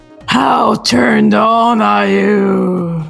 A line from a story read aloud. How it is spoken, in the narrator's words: Rosie murmured